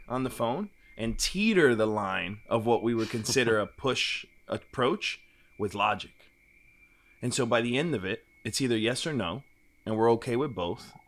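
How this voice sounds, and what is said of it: Southern twang. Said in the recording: “your Southern twang”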